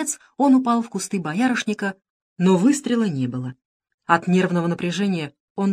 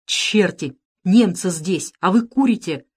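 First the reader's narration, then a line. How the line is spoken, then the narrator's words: Hissed. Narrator (Russian): прошипел Никитин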